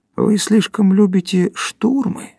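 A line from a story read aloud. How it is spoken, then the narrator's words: Soft, gentle voice. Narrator (Russian): сказал Горбовский мягко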